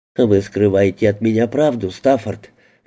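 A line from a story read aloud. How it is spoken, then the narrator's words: Soft, young woman. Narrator (Russian): мягко сказала девушка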